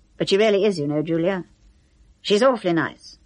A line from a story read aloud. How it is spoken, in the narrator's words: Quickly he added